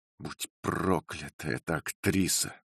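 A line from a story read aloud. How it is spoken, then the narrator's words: Whispered. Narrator (Russian): прошептал мистер Тревертон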